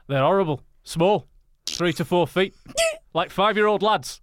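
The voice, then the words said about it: Put-on Yorkshire accent. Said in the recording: “I'm gonna do try a Yorkshire accent. ... It's like he's a football coach who hates his job.”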